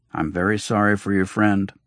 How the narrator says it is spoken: he said

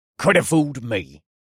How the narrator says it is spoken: the man sneered

